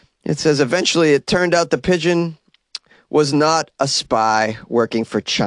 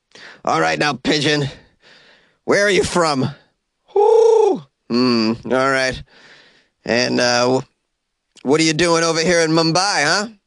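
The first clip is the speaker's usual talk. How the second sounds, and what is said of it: Acts out an interrogation scene voice. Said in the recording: “doing an impression of a pigeon being questioned on a polygraph machine”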